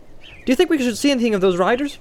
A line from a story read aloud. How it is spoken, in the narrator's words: asked Pippin cheerfully